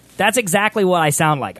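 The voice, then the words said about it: High squeaky chipmunk-like voice. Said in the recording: “I sound like I'm making a fake voice, but this is actually my voice on helium ... I sound like I could be like a chipmunk or something ... I sound like a South Park character”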